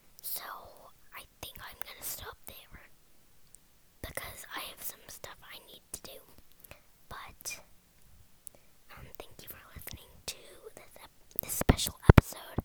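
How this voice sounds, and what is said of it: Whispering. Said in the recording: “My voice is getting kind of tired of whispering”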